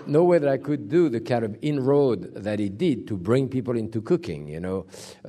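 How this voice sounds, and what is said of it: Noticeable foreign accent. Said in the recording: “because of my accent”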